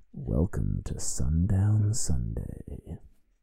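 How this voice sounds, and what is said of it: Put-on sexy, seductive voice. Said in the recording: “his own attempt at a sexy voice ... I kind of creeped myself out there a little bit”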